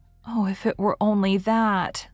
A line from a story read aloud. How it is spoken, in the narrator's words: sighed Anne